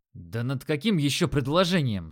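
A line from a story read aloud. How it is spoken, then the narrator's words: Irritated. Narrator (Russian): сказал я раздраженно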